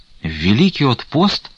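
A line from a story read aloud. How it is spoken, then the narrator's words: Frightened exclamation. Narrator (Russian): испуганно воскликнул Стуколов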